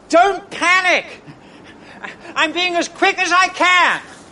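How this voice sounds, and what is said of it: Shouting. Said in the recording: “stop shouting”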